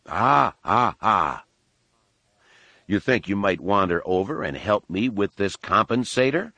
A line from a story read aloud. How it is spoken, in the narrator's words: Han asked dryly